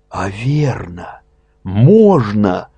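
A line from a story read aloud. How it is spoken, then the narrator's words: Breathless excited exclamation. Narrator (Russian): захлебываясь, воскликнул он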